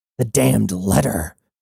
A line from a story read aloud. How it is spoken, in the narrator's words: Cybele snarled impatiently